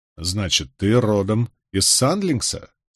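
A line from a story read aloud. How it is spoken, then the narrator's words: Plain. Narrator (Russian): спросил я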